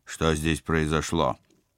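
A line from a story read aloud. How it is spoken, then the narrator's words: Rude question. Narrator (Russian): спецагент грубо поинтересовался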